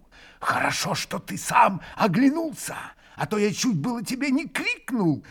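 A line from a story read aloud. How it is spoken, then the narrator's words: Joyful hurried whisper. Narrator (Russian): Радостно и торопливо прошептал ему Дмитрий Федорович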